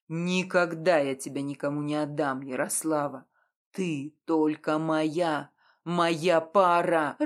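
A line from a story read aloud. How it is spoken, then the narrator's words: Werewolf growling. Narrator (Russian): рыкнул оборотень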